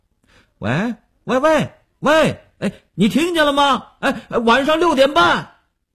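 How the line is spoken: Broken shouting over phone. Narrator (Chinese): 断断续续地听见刘文庆在那边大呼小叫

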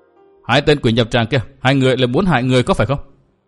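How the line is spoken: Loud shout. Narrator (Vietnamese): quát lớn

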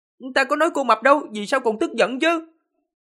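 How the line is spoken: Indignant, angry. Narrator (Vietnamese): Tần Mục khá là vô tội, giận dữ nói

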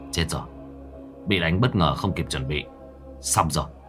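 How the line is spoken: Muttering. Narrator (Vietnamese): Cậu lẩm bẩm

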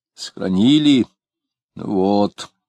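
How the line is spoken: Vague grumble. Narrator (Russian): неопределенно проворчала она

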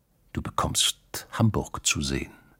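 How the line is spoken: Quiet. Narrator (German): hatte er leise gesagt

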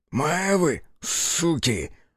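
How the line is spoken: Breathless exhale. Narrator (Russian): выдохнул боец

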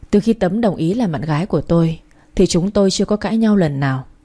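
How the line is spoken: Sighing. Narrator (Vietnamese): Hoàng thở dài và nói

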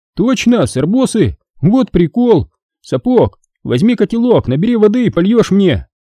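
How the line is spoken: Shouting. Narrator (Russian): крикнул Хасан

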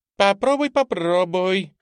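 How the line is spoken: Cheerful laughing. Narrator (Russian): весело рассмеялась Аида

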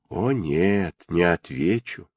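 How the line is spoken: Silky ingratiating voice. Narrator (Russian): вкрадчивым голосом ответил мистер Барлинг

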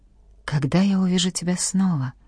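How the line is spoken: Whispered. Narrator (Russian): прошептал

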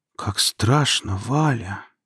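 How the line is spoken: Quiet. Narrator (Russian): тихо произнесла Наталья Семеновна

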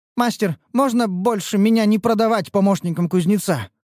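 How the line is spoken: Pleading. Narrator (Russian): взмолилась красная

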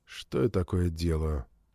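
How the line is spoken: Whispered to himself. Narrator (Russian): прошептал я себе под нос

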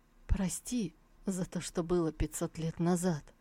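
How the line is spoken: Hoarse voice. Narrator (Russian): Его голос звучал хрипло

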